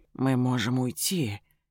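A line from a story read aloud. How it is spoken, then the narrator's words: Gentle reminder. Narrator (Russian): мягко напоминает Ильрид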